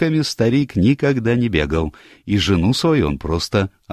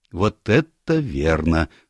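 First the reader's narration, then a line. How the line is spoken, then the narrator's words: Calm agreement. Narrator (Russian): спокойно согласился Станор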